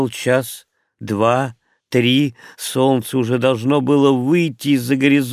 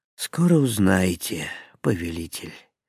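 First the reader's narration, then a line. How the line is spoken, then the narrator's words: Sad reply. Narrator (Russian): печально ответил волшебник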